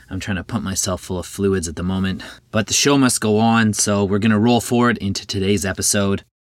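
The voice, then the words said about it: Slightly hoarse voice. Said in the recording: “I've been feeling a little under the weather this weekend, so pardon me if I sound a little hoarse.”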